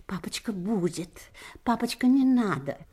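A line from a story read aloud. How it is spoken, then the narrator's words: Embarrassed boys whispering. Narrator (Russian): братья Ани, Петя и Андрюша, гимназисты, шептали сконфуженно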